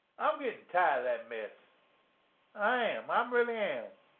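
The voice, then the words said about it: Southern Louisiana accent. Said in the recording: “this Southern or the Louisiana accent”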